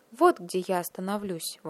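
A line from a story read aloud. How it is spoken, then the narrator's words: Exclaiming. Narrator (Russian): воскликнула она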